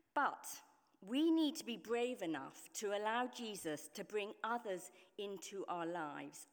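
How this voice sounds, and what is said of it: Speaks with a noticeable accent. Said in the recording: “I can't recognize your accent... I didn't fit in because of my accent”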